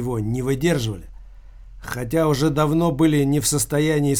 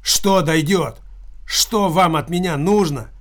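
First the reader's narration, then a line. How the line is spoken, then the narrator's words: Loud exclamation in reply. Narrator (Russian): громко воскликнул Килькин в ответ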